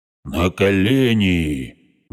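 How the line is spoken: Menacing bark. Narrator (Russian): грозно рявкнул Лок

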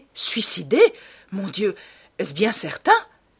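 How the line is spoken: Horrified exclamation. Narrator (French): s'écria Hallward avec une expression d'horreur

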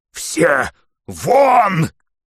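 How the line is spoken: Hoarse shout. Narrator (Russian): только и мог он крикнуть хриплым голосом

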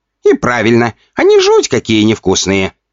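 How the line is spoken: Laughing. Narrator (Russian): хохотал Чибик

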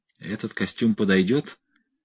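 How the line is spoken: Hoarse voice. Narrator (Russian): хрипло сказал Торн 199

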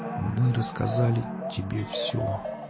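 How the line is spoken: Muffled, barely moving lips. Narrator (Russian): глухим голосом произнес он, едва шевеля губами

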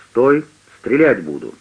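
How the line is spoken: Sharp shout breaking silence. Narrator (Russian): резко разорвав тишину, раздался окрик

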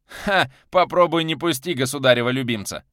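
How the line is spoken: Chuckling. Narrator (Russian): хохотнул Солодовников

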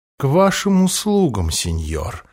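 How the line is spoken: Old man's mutter. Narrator (Russian): пробормотал старый Бен

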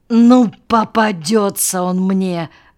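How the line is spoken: Growling. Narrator (Russian): рычал Кощеев

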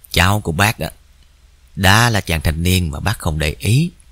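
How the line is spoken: Sighing. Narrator (Vietnamese): bác chỉ thở dài

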